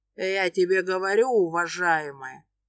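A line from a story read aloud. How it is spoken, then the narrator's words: Hoarse drunk woman. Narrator (Russian): Сипит алкашка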